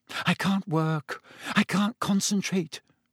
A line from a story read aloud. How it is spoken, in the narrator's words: she said nervously